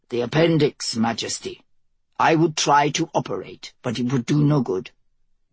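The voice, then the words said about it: Heavy foreign accent, character voice. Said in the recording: “His voice revealed a heavy Mort accent.”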